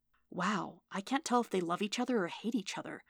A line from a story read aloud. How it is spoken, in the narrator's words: Ernst whispered over the bickering